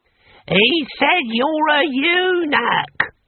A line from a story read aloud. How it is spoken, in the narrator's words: Boy Willie bellowed in Hamish's ear